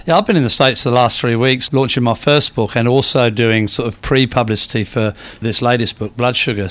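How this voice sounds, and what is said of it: Half English, half Australian accent. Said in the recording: “I've got the perfect accent for America because it's sort of half English, half Australian”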